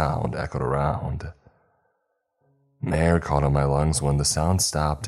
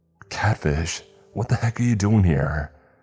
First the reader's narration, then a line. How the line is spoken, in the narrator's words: I demanded in a stressed voice